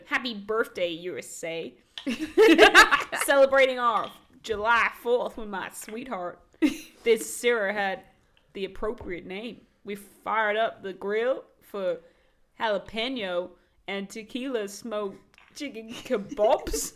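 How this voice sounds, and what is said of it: Obnoxious put-on American accent. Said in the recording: “Do you want to hear an obnoxious American review? ... Can you do the accent?”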